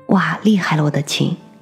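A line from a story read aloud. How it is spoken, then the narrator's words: Amazed exclamation. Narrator (Chinese): 我也非常惊奇的感叹道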